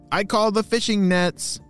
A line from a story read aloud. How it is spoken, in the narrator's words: shouted Lee